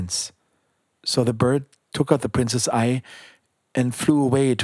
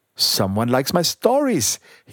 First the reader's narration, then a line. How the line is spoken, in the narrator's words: he cried happily